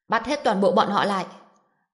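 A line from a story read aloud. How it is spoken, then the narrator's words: Angry shout. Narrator (Vietnamese): Tần Trung Long tức giận hét lên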